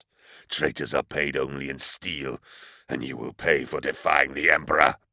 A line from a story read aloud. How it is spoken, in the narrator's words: A voice muttered out